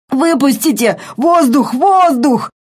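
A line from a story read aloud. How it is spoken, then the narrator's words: Wheezing, gasping. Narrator (Russian): он хрипел и задыхался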